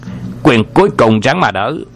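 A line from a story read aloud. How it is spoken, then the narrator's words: Loud battle shout. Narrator (Vietnamese): Hoàng Dược Sư quát lên một tiếng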